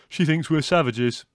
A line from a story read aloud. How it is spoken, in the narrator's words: said Leslie, chuckling